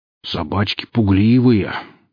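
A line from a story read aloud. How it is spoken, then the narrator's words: Heavy sigh, sad bass. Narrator (Russian): тяжко вздохнув, расстроенно пробасил Семен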